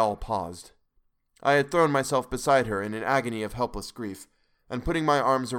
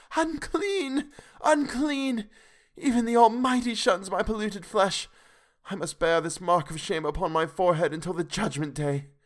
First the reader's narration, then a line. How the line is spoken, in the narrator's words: she wailed out